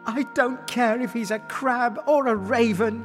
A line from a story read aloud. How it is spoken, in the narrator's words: she cried with joy